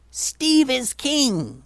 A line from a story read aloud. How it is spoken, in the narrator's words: he yelled